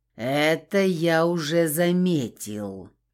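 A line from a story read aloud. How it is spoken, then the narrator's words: Jealous growl. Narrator (Russian): прорычал мой ревнивец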